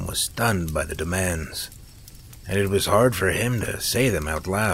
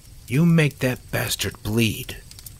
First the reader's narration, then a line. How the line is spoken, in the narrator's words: Carol agreed sharply